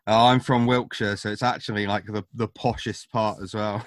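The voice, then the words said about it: Posh British accent. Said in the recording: “I feel incredibly posh ... my overly British accent ... you're classing it up”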